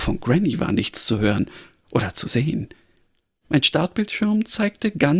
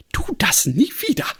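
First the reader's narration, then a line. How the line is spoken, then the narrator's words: Agitated, barely composed call. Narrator (German): rief Granny aufgeregt und schien heftig mit ihrer sonst so unbestechlichen Kontenance zu ringen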